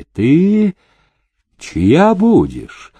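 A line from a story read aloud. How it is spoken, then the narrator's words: Gentle question. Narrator (Russian): ласково спросил Демидов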